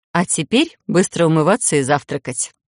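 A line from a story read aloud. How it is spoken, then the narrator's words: Mock-stern command. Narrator (Russian): приказала нарочито строго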